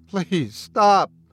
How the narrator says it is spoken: Bradley whimpered

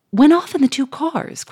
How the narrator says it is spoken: cried, in blank stupefaction

